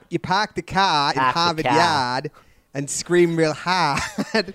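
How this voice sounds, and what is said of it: Put-on Boston accent. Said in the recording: “He's doing a Boston accent. ... Doing a Bostonian accent?”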